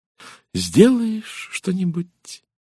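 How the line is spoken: Slow thoughtful speech. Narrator (Russian): медленно произнесла леди Энн Кейтл, задумчиво

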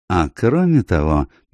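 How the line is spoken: Soft remark. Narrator (Russian): мягко заметил Пуаро

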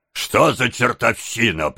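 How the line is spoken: Grumbling bass voice. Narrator (Russian): проворчал чей-то бас

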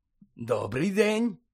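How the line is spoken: Cheerful, smiling. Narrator (Ukrainian): радісно посміхнувся він

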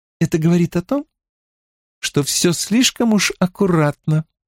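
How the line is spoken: Calm, even tone. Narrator (Russian): спокойно, не повышая тона, отвечала Элейн

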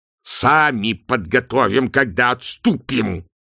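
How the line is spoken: Hissed through clenched teeth. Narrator (Russian): сжав зубы, процедил арканцлер

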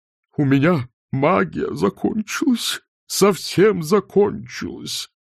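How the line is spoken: Groaning. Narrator (Russian): простонал декан

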